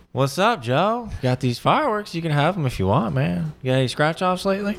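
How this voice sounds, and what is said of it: Close impression of an acquaintance. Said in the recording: “You have a good impression of Adam Murray ... you barely changed, but that actually sounds like him ... That's spot on.”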